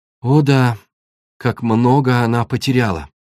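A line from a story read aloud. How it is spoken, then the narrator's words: Sad agreement. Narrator (Russian): печально согласилась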